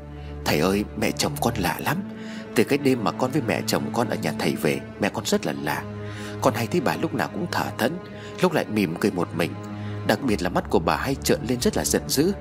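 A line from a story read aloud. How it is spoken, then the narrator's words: Whispering. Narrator (Vietnamese): Cô An thì thầm với thầy cúng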